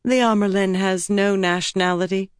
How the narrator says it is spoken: Egwene said coolly

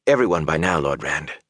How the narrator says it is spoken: Huron said quietly

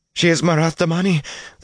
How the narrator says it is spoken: the pale girl wailed

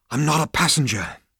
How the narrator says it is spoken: panted Zaphod

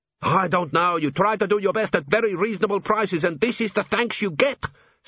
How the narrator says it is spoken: said Gimlet hotly

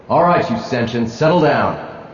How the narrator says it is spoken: roared Mako Spence

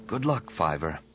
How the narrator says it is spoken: Anakin whispered

